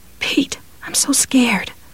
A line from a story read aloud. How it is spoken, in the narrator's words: she said in a whisper that was almost a moan